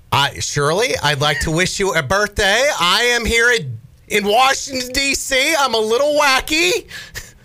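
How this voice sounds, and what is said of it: Impression of AOC. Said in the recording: “if you'd like to do an impression, you can ... Is it not in his repertoire of voices? ... I don't know how to impersonate her ... AOC”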